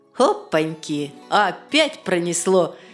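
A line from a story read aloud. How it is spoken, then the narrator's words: Laughing. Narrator (Russian): засмеялся Велес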